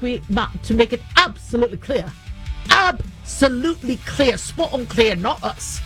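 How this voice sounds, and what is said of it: Attempted British accent. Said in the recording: “I can't do a British accent”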